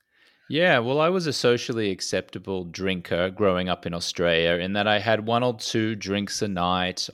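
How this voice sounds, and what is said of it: Australian accent. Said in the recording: “you have an Australian dialect,”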